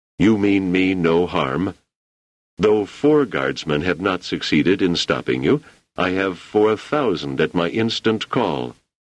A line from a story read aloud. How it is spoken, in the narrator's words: He said calmly